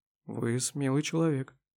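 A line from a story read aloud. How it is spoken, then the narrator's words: Very quiet. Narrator (Russian): очень тихо произнесла Слепакова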